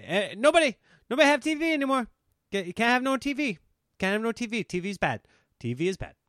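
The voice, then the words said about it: Imitates another person's voice. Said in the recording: “my Eddie Murphy impression”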